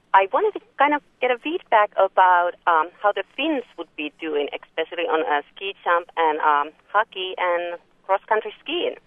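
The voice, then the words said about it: Finnish accent. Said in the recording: “am I detecting a Finnish accent? ... Yes, you are.”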